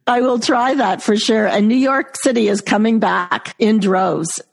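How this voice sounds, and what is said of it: New York accent. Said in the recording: “your New York accent really brings me back to New York”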